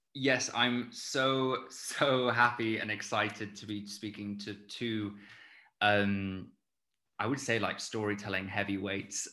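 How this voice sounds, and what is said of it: Plummy English accent. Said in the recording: “my plummy English accent.”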